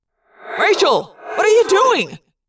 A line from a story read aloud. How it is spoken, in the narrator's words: Jake yelled